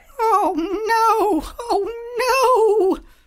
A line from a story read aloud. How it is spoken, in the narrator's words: Winnie moaned